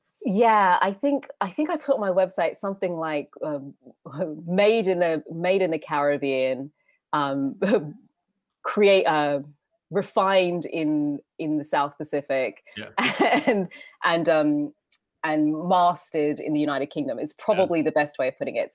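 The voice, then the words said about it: Australian-sounding accent. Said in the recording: “I thought you had an Australian accent”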